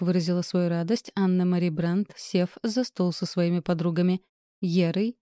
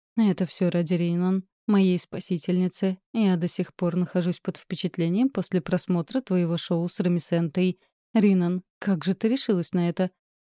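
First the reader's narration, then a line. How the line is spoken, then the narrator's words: Plain. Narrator (Russian): спросила Ера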